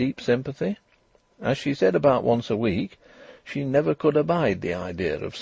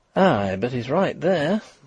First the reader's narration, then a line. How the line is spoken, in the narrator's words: breathed Mrs